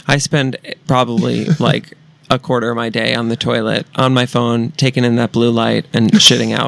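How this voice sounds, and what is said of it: Usual voice. Nothing is said of it.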